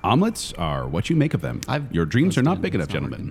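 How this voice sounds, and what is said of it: Poor Alex Trebek impression. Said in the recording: “It's not a good impression. ... Is actually supposed to be Alex Trebek.”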